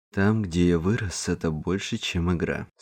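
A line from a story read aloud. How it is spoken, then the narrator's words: Plain. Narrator (Russian): сказал Кевин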